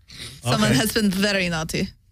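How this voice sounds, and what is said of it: Put-on Russian accent. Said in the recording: “doing her Russian accent, too.”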